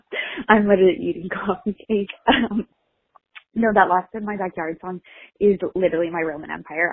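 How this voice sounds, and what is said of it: Out of breath. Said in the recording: “Sorry, I don't know why I'm out of breath.”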